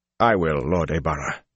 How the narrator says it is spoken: he said stiffly

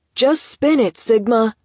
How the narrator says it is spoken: someone shouted

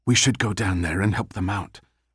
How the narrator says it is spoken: Abby whispered

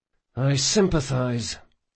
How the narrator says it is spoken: whispered Locke

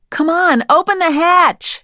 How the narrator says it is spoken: she shouted

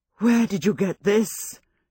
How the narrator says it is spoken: she demanded in a low, emotional voice

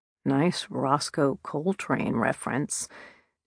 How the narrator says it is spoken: under his breath, he muttered

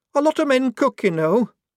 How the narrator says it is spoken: said Shufti hotly

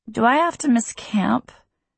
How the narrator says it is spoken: Grace asks miserably

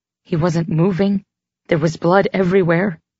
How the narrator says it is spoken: I said shakily

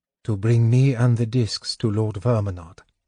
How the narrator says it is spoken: Gold Moon said softly

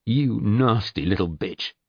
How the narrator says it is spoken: he spat back

